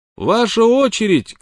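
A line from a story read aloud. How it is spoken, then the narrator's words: Shouted. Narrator (Russian): крикнул он Смоку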